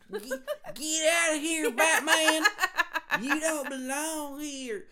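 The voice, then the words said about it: Harley Quinn character voice. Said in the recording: “my Harley Quinn impression. It was spot on. ... That was accurate. ... I like her new accent.”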